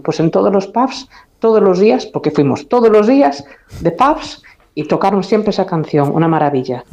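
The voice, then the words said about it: Lovely Galician accent. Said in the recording (Spanish): “con acento, con este precioso acento gallego”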